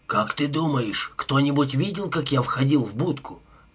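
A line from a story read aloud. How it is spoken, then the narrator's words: Mumble. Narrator (Russian): пробормотал Паркер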